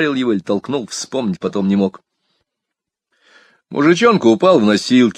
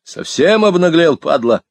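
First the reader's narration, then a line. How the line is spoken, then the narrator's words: Furious bark. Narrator (Russian): гаркнул я на него, ослепленный внезапным гневом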